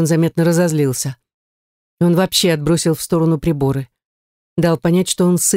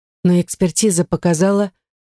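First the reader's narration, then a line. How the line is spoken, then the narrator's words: Dull, lifeless voice. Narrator (Russian): добавила я потухшим голосом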